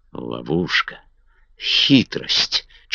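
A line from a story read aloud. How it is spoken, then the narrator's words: Barely audible mutter. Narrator (Russian): чуть слышно пробормотала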